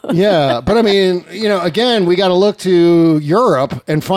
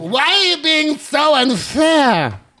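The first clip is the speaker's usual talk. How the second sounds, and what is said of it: Imitates another person's voice. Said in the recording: “that's my actual Marine Le Pen impression. No French accent. ... my Jeanine Pirro impression ... it sounded a little like Jeanine Pirro”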